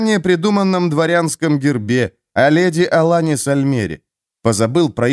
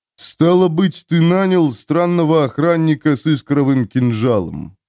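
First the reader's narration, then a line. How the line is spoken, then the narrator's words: Grumbling heavyset jailer. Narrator (Russian): проворчал тучный тюремщик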